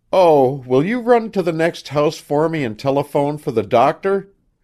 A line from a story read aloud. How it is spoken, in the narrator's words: she cried, all in one breath